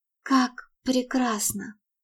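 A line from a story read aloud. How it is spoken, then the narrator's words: Pained, nauseous whisper. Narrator (Russian): прошептала она, чувствуя, что сердце болезненно сжимается, а внутренности скрутило тошнотным узлом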